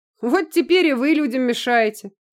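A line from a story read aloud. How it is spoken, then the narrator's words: Mocking mimicry, loud laughter. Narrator (Russian): Передразнил ее Костя и засмеялся в голос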